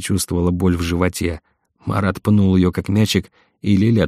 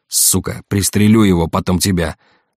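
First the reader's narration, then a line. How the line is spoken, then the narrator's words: Yelling. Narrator (Russian): заорал Марат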